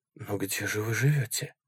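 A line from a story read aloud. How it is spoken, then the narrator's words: Incredulous whisper. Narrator (Russian): прошептал я, все еще не веря тому, что он говорит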